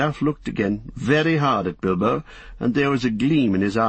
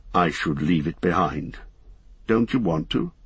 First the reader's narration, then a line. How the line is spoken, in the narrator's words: he said quietly